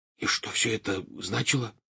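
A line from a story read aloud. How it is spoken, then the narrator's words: Whispered question. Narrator (Russian): шепотом спросил Рон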